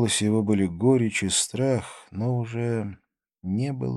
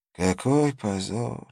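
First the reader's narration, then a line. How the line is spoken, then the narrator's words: Old man's tearful sigh. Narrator (Russian): вздохнул старик, и его глаза наполнились слезами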